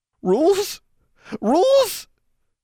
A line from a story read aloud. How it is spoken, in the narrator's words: His voice rose